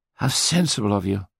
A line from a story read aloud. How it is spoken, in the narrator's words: gasped Patrick